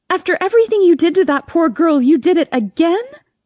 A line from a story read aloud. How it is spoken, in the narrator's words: I scream